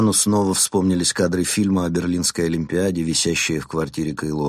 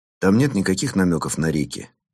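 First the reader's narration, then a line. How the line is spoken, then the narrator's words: Plain. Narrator (Russian): спросил он офицера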